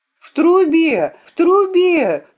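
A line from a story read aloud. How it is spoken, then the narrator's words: Forceful shout. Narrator (Russian): с силой закричала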